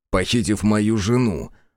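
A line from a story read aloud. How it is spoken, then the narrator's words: Angry smirk. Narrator (Russian): зло усмехнулся я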